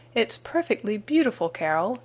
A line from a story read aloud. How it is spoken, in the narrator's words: he cried, just as soon as he was near enough